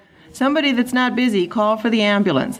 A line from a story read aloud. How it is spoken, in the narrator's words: the doctor said in an offhand voice young doctors adopt for terrible occasions